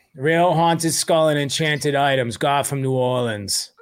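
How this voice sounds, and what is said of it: Put-on Boston accent. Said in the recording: “I really need this read in a Boston accent.”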